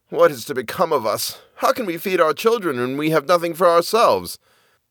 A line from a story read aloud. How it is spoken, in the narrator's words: as he was lying in bed worrying about his problems, he sighed and said to his wife